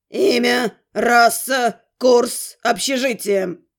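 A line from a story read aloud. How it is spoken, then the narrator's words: Muttered through teeth. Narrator (Russian): процедил вампир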